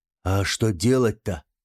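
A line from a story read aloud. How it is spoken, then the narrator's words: Whispered question. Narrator (Russian): почему-то шепотом спросил Хайскар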